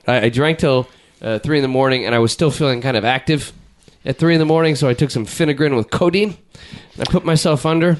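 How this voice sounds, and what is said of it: Voice in poor, rough condition. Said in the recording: “with the bad voice here ... I guess my voice is, it's not that hot today because I drank till 3 in the morning last night”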